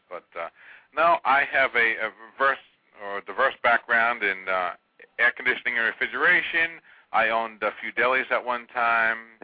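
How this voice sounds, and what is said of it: New York accent. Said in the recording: “originally a New Yorker, by the way. ... Yeah, I can detect the accent.”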